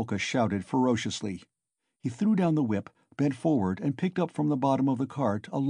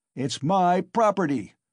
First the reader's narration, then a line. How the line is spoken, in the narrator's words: shouted Mikolka